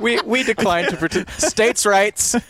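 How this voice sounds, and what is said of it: Wisconsin accent. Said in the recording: “States' rights in a Wisconsin accent”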